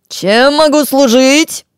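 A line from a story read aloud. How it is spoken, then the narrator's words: Deafeningly loud small man. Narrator (Russian): Оглушительно громко произнес маленький человечек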